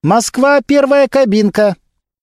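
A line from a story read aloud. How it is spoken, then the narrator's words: Young woman calling out. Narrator (Russian): девушка-оператор выкрикнула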